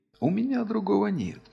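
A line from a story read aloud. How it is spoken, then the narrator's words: Said quietly. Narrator (Russian): тихо проговорил Трагвар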